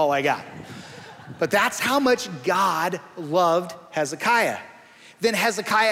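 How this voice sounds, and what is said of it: Usual voice. Nothing is said of it.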